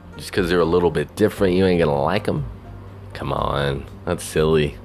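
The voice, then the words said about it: Southern twang accent. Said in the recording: “Southern Twang Show. It's that hobo with a Southern Twang”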